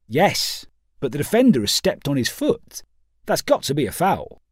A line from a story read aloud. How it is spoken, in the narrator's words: responded Pawson sharply